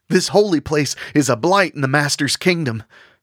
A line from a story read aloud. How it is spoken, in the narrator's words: Stapleton cried out